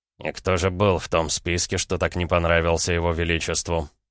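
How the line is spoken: Restrained, through gritted teeth. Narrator (Russian): Сквозь зубы процедил Краснов, пытаясь взять себя в руки

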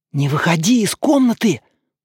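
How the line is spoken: Whisper. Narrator (Russian): прошептал Ося

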